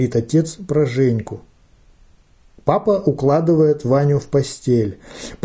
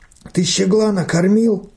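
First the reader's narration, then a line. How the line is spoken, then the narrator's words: Hoarse wheeze. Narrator (Russian): хрипит Ваня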